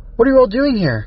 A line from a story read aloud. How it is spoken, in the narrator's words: Cat called out, relieved to hear familiar voices